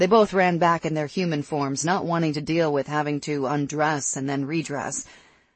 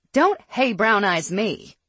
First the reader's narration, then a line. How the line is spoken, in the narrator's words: she snapped